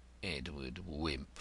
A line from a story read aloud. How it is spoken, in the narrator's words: George Grodman with annoyance murmured scornfully